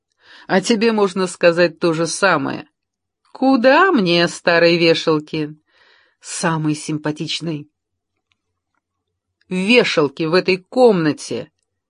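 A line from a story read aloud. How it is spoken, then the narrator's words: Objecting. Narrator (Russian): возразил он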